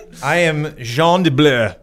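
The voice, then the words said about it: Put-on French accent. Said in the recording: “I am not French, but I do have a French accent.”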